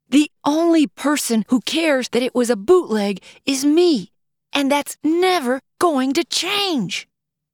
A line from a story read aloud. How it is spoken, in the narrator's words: Finally worn down physically and emotionally, Michelle gave over to complete frustration and yelled